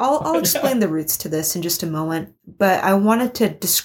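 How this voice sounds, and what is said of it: Usual voice. Nothing is said of it.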